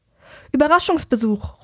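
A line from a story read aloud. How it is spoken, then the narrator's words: Calling out. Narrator (German): ruft Herrick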